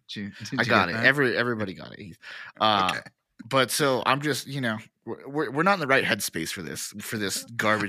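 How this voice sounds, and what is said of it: Sick-sounding voice. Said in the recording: “I'm battling a sickness right now, if you can't tell by my voice.”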